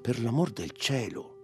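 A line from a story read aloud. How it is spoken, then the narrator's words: Pleading voice. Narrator (Italian): una voce che la supplicava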